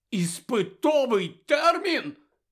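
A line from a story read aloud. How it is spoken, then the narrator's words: Very loud exclamation. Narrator (Ukrainian): так голосно вигукнув Рон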